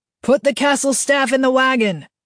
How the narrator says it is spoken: The yell from behind him

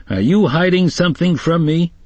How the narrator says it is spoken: Lewis was trying very hard to keep from giggling

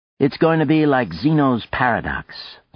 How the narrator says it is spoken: Sluzinski said

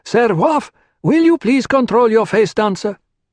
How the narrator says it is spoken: One of the priests, it was old Albertus, called out

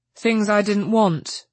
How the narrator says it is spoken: he said crossly

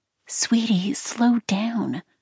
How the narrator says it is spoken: Farrah said gently

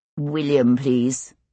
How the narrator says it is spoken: he said dryly

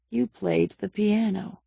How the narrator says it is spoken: he spoke very faintly

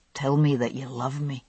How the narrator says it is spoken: he whispered to me

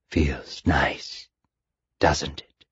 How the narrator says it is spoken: the voice asked quietly

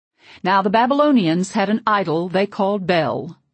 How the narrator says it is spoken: he declared, his voice the only clear thing in the haze that hung over us

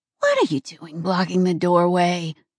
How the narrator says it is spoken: Nonna muttered

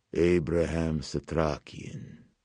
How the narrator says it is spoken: purred

